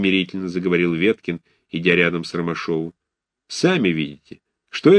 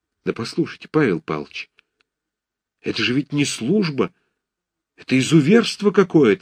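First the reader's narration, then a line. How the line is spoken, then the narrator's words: Tearful angry exclamation. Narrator (Russian): со слезами гнева и обиды в голосе воскликнул Ромашов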